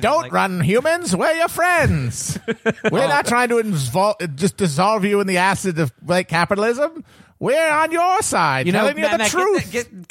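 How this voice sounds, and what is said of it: Put-on mid-Atlantic accent. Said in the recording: “mid-Atlantic accent”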